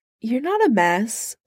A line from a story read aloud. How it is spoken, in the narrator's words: Steve says gently